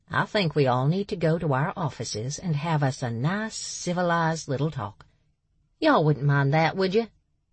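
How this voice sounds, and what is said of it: Character voice with a marked accent. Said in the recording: “That accent.”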